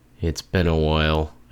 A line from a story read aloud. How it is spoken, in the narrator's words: I muttered